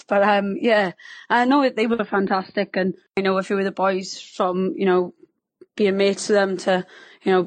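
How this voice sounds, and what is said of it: Strong Welsh accent. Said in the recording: “we can detect a strong Welsh accent there ... can you tell I'm Welsh by my subtle accent?”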